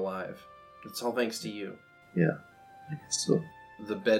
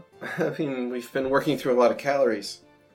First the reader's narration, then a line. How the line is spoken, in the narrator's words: she says, kind of, like, laughing